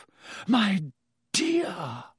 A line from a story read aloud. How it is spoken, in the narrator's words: Professor Trelawney breathed